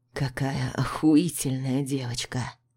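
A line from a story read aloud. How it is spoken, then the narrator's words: Low voice. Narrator (Russian): Низким голосом произносит Артур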